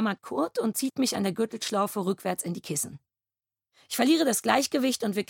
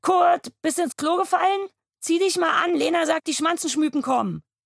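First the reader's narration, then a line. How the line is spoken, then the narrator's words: Calling out. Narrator (German): er ruft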